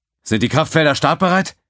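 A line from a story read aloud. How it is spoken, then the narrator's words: Call. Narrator (German): rief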